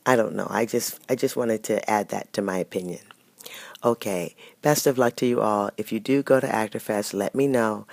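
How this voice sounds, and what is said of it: Sick, rough-sounding voice. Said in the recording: “Please excuse my voice. I'm very sick.”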